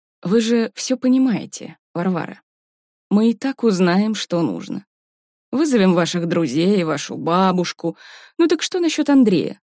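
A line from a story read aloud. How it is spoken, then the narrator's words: Calm, insinuating, unthreatening. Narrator (Russian): Следователь говорил спокойно и вкрадчиво, без угрозы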